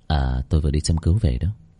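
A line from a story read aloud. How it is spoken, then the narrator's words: Smiling. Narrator (Vietnamese): Bác cổ mỉm cười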